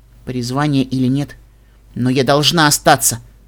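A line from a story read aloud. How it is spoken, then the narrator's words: Firm voice. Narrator (Russian): твердым голосом сказала волшебница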